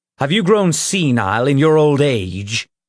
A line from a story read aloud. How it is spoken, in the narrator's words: Ulfgar sneered